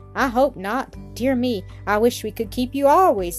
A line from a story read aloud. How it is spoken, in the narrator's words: he exclaimed